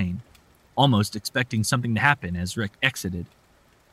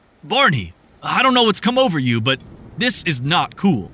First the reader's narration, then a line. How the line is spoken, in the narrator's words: Rick said angrily